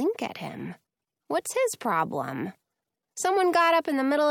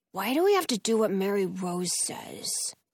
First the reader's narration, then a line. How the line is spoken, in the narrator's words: grumbles